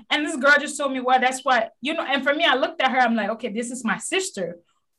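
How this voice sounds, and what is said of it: Thick African accent, slightly Americanized. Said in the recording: “I do have an accent and I'm proud of that... I do have a thick accent... incorporated the American accent a little bit, but my accent is still there”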